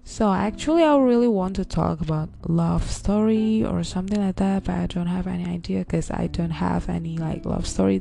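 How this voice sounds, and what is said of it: Dry, parched-sounding voice. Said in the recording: “my voice is also like, you know, dried up. Because I haven't like eaten or drink anything since morning.”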